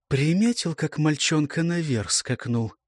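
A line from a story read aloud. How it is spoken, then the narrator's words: Quiet question. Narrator (Russian): негромко спросила Ильгра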